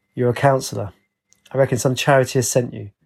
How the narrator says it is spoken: He sighed and said

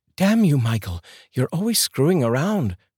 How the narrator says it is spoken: shouted Ariana

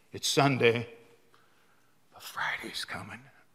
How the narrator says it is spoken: the devil whispering in their ears

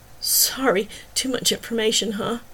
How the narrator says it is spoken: Her voice dropped to a whisper

